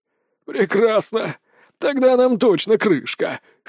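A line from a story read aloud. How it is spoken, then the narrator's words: Old man's chuckle. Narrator (Russian): хохотнул старик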